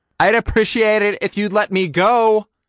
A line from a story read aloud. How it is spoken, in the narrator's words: I shouted back at it